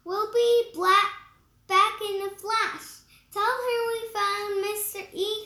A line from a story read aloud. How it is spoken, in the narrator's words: Camille shouted after her